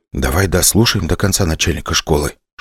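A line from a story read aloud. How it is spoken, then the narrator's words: Whispered. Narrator (Russian): шепнул я Вере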